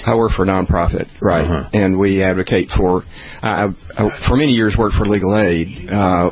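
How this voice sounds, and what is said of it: Tennessee Southern accent. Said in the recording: “you do sound like a Tennessean”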